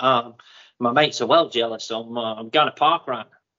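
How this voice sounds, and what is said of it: Put-on Australian accent. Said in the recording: “Still sounded a bit like Borat ... I can do a more Borat Australian ... he's doing the accent again”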